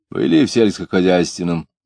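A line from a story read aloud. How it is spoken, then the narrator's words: Mocking question. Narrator (Russian): спрашивал он, насмешливо кривя губы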